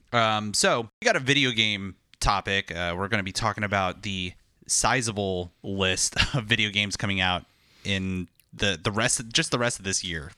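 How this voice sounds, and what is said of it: Coarse, hoarse voice. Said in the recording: “my voice is a little coarse today, because I've been screaming into a mic for about 3 hours”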